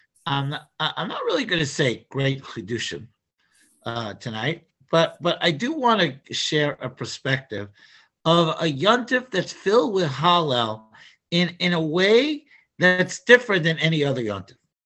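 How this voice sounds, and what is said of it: Strained voice, not at full strength. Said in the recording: “I apologize for my voice, it's not at 100%”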